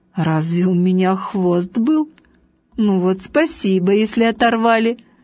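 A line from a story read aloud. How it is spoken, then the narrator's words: Laughing. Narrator (Russian): Важный засмеялся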